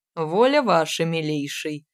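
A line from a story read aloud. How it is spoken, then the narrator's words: Smirking snort. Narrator (Russian): хмыкнул Фролов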